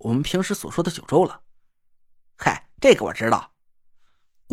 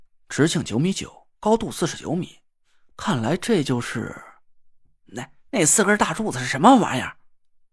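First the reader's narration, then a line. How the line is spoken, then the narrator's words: Low, trembling voice. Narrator (Chinese): 郭永哲把嗓音压得很低，但掩饰不住声音里的颤抖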